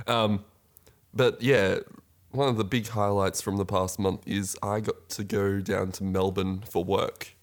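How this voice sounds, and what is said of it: Congested, sick-sounding voice. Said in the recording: “I am still recovering from a cold ... You can probably hear it in my voice”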